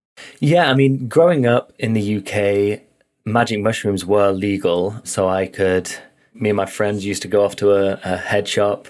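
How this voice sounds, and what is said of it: Noticeable non-North American accent. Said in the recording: “I can finally see where that accent's coming from”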